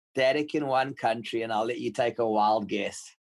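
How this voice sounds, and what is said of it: South African accent. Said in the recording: “it sounds South African to me ... You got it ... Most people say it's New Zealand”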